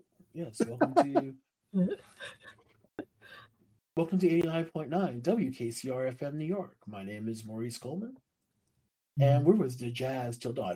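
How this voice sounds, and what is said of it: Smooth radio DJ voice. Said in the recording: “that's my old DJ voice.”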